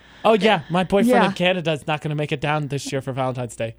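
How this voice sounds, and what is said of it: Put-on accent, possibly mock Canadian. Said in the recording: “What accent is that? Is it supposed to be Canadian?”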